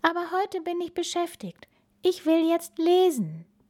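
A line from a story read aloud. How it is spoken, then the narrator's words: Sighed. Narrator (German): seufzte Bella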